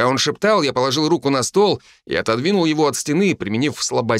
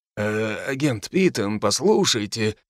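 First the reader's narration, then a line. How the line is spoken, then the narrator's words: Exhaling. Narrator (Russian): начал Бруно и снова выдохнул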